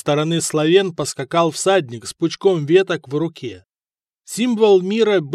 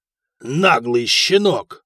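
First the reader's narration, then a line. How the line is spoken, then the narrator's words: Growling. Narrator (Russian): рыкнул Феодор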